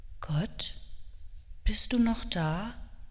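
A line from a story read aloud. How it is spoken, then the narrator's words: Quiet, sad or anxious question. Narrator (German): die ihn traurig oder ängstlich gemacht haben, hat Noah leise gefragt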